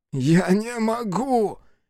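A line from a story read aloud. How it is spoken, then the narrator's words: Hoarse wheeze. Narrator (Russian): прохрипел Хицу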